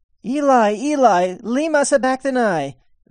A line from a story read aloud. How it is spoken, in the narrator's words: Jesus cried out with a loud voice, saying